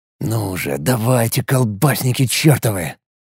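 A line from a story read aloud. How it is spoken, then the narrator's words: Muttering. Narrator (Russian): пробормотал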